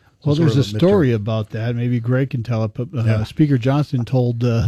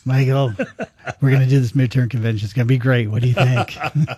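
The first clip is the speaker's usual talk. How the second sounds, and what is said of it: Imitates another person's voice. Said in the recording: “I can't do a Trump impression.”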